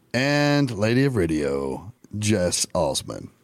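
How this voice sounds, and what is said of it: Announcer-style radio voice. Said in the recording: “I used my radio voice when I said that.”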